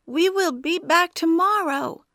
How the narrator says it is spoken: yelled Li Xian over the noise

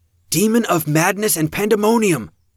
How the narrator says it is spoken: Rose shouted the words

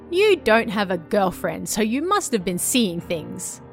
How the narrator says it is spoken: she said with a laugh

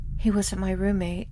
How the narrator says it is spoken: she said quietly

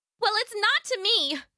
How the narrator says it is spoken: she yelled back

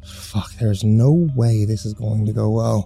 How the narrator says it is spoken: I muttered under my breath

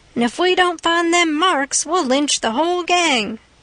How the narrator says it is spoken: all shouted

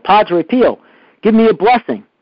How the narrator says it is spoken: Santarello cried out

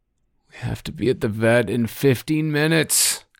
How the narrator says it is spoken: Guy groaned

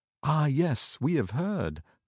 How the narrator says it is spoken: they answered, shaking their white heads mournfully

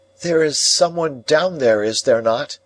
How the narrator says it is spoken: I called out, looking down

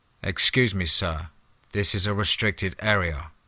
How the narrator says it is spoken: one said in an emotionless voice

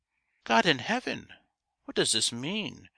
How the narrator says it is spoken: cried Geoffrey

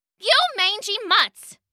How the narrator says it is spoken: she shouted

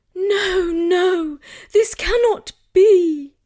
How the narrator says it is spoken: pleaded Guinevere

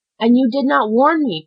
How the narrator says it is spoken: cried Caderousse, raising himself on his elbows

